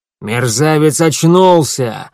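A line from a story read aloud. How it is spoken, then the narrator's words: Angry bark. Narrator (Russian): рявкнул он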